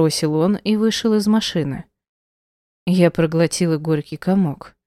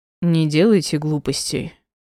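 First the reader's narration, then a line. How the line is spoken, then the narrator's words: Cold. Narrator (Russian): сказал холодно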